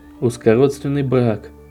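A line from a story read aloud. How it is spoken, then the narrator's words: Muttered aloud. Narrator (Russian): вслух пробормотал Эрмитедж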